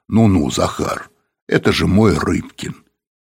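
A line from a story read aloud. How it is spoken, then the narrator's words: Booming bass voice. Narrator (Russian): Апанасенко сказал гулким басом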